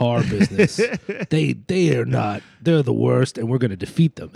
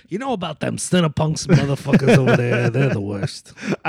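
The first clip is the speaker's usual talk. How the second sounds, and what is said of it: Put-on New York hardcore accent. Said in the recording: “adopting a New York hardcore style Vinny Stigma accent ... I don't think it's New York, that accent that I'm doing ... it's completely made up ... No human sound like this ... a mix of New York hardcore”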